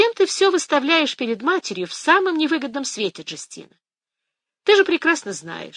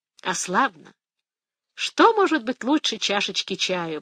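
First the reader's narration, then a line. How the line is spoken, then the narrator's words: Blissful sigh. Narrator (Russian): блаженно вздохнула Фия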